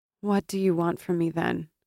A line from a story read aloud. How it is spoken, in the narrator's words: she asked wearily